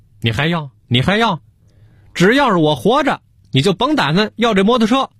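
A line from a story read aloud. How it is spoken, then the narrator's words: Exasperated. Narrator (Chinese): 给小何嚷嚷急了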